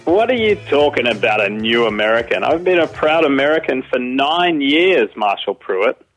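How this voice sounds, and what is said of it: Australian accent. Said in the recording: “an exquisite Australian accent”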